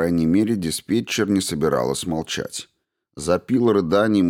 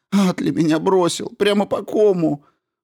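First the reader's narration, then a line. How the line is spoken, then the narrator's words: Quieter sob. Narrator (Russian): Всхлипнула, но уже тише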